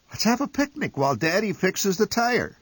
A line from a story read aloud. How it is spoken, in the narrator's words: suggested Mother cheerfully